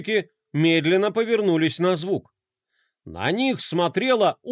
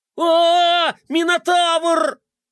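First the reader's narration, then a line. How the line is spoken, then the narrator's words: Group shouting. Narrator (Russian): закричали геройчики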